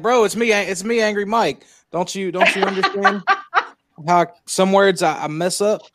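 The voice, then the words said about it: Southern American accent. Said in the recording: “I love his accent ... some sayings that even other Southerners aren't quite familiar with ... My smooth, sultry, buttery”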